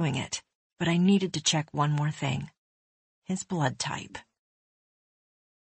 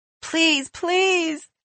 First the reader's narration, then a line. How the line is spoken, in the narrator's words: the woman wailed